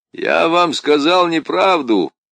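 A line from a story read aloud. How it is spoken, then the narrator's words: Sudden shout. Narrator (Russian): вдруг крикнул ему вслед лейтенант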